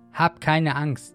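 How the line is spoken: Plain. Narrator (German): sagte Elisa

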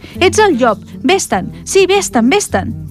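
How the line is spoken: Seven kids shouting together. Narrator (Catalan): van cridar tots els set cabridets

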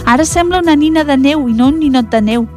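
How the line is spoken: Children exclaiming. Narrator (Catalan): va exclamar, van exclamar els nens

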